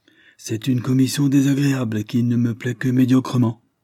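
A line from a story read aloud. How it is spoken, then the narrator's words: Abrupt exclamation. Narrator (French): s'écria un brûle-pourpoint le docteur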